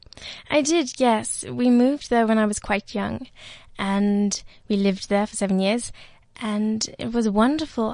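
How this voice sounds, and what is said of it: Posh, correct British-sounding accent. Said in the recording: “this lovely, correct, posh accent comes out your mouth”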